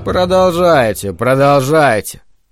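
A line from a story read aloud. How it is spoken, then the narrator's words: Tired. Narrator (Russian): устало сказал Спенглер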